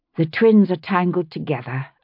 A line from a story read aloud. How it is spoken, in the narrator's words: I said as calmly as I could